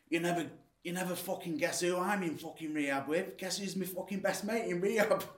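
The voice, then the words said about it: Attempted Salford accent. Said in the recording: “I'll try and do a Salford accent.”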